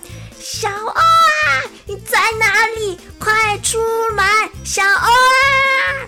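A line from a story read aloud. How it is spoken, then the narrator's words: Loud calling. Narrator (Chinese): 小甲在跳水台上大声的呼喊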